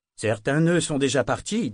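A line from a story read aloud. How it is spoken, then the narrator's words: Pensive tone. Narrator (French): dit Shriver d'un ton pensif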